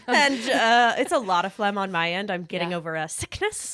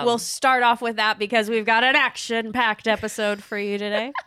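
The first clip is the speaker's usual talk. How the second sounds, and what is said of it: Energetic race car announcer delivery. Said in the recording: “how you sound like a race car announcer”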